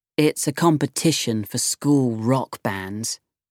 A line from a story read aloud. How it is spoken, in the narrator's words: she said in a bored voice